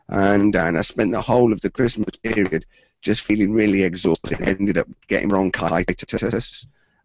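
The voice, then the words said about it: Croaky voice with occasional coughing. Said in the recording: “That's why my voice sounds croaky and I keep coughing from time to time.”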